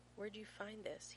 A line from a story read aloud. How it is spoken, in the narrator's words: He murmurs, and his voice sounds brittle even to his own ears, fracturing beneath the weight of 100 other questions he wants to ask